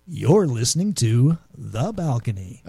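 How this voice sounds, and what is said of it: Announcer-style radio voice. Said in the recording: “you're using radio voice?”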